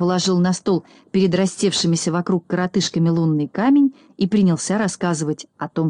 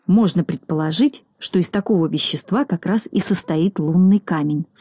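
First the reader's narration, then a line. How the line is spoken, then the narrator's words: Plain. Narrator (Russian): сказал Знайка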